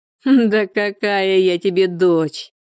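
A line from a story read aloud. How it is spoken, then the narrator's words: Angry laughter. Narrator (Russian): Зло расхохоталась Людмила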